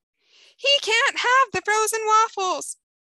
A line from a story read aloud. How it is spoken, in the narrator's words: Jennifer screams, her face suddenly reddening